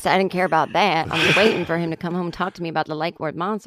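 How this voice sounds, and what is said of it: Good put-on Texas accent. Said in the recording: “Now that's a good Texas accent.”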